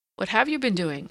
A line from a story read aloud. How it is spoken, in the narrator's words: I asked